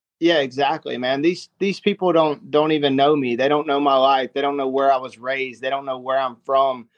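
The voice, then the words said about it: American country accent. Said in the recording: “this country accent that I have and that I adopted from my family”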